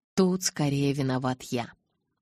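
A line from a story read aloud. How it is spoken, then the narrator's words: Grim chuckle. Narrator (Russian): мрачно усмехнулся Эдвард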